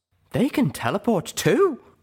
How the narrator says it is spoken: Velvet Remedy blurted, finally reaching the same level of hateful disbelief I felt towards these creatures

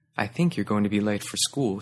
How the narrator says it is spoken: she said evenly

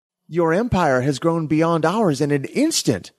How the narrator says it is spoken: exclaimed the awestruck hive mind

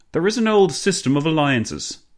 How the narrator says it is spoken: Clemenceau boomed

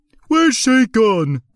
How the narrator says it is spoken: cried one pirate

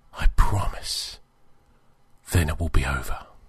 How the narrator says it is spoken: he whispered

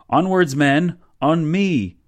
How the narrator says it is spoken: yelled

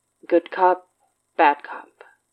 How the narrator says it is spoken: asked, his voice level

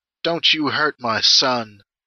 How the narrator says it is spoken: she croaks behind you

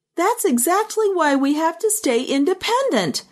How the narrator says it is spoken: Buchanan shouted over the others

